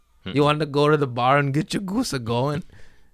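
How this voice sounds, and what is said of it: Poor put-on Minnesotan accent. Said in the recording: “Is that how you sound? ... I'm bad at impersonations.”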